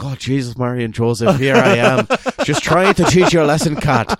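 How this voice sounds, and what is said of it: Bad put-on Irish accent. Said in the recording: “The only way I can get into a very bad Irish accent is to say Jesus, Mary and Joseph ahead of time.”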